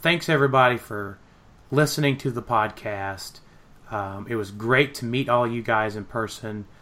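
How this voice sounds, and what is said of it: Voice not fully recovered from illness. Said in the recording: “I was sick... my voice is not 100%”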